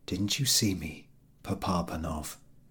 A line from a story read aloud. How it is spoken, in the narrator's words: each whispered